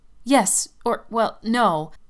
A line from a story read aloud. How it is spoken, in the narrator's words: I stammered